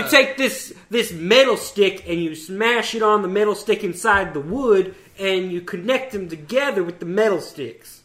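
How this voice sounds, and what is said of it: Put-on hillbilly-ish Southern accent. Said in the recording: “Is that your southern accent? ... that's just a random stupid accent. ... trying to go for like ... seems southern ... hillbilly-ish. ... Southern accent.”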